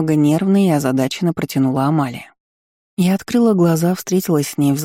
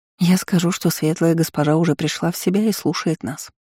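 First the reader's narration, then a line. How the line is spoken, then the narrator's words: Calm reply. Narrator (Russian): спокойно ответила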